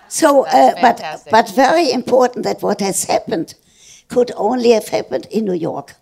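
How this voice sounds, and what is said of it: Distinctive accented speech. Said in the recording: “had to take speech lessons to learn my accent”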